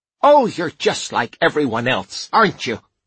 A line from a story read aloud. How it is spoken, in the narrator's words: she snapped